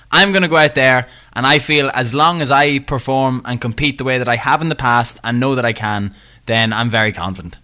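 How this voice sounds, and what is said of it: Northern Irish accent. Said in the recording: “You have a Northern accent.”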